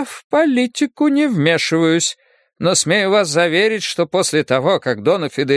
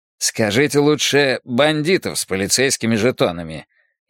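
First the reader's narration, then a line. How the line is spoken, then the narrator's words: Sarcastic. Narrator (Russian): язвительно заметил Фермин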